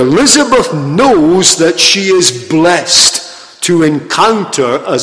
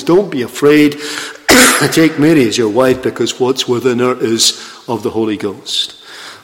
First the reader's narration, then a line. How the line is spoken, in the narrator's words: the angel says